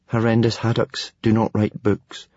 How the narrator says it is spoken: muttered Hiccup

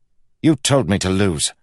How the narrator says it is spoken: snapped Kel

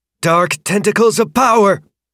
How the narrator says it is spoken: Shauna's voice called out

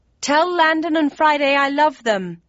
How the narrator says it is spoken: yelled

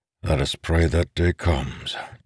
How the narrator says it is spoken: Dalinar said quietly

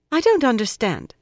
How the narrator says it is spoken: Lorella said sharply

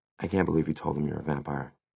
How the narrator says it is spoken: she added, lowering her voice so only Simon could hear

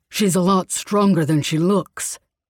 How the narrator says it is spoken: Kai said after an annoyed grunt

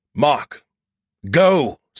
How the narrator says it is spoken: Skippy shouted

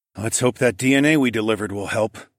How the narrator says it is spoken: sighed

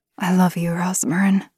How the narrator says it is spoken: whispered

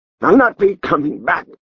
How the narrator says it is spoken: Volkmar Bauer snarled

